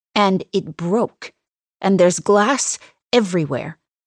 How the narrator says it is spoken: I say tightly

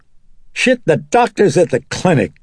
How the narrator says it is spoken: Chris said irritably

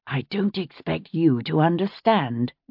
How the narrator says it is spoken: Ben said through his teeth

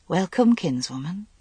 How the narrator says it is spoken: she said softly

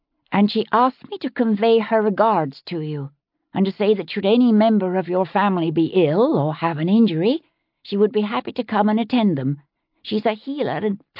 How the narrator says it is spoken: she said evenly

